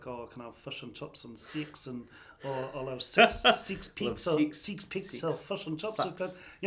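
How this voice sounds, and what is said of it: Stereotyped South Island New Zealand accent. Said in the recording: “The Pākehā sort of Dunedin type, you know, Christchurch type accent is that very, the one that people actually rip off ... which is the stereotypical thing that everyone says”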